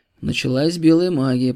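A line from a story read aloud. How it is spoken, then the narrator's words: Muttered. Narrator (Russian): пробормотал Иванушка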